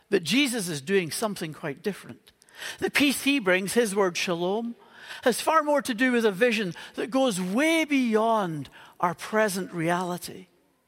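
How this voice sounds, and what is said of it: Northern Irish accent. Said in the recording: “You can maybe tell from the accent that I grew up in Northern Ireland.”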